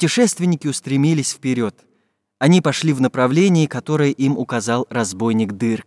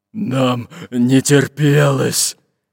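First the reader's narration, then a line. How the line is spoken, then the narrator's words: Deep bass voice. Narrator (Russian): пробасил Буль-Буль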